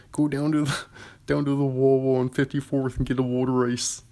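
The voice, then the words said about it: Imitated Philadelphia accent, swallowed L's. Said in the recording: “do a Philadelphia accent ... They like swallow their L's”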